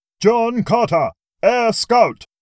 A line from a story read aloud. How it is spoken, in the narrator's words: the aide called out